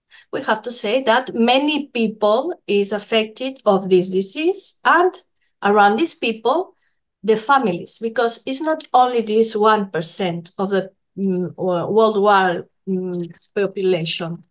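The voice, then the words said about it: Non-native accented English. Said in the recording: “I'm sorry for my accent.”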